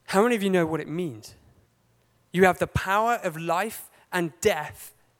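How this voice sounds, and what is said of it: English accent slipping through. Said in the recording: “oh my goodness, my English accent is coming out”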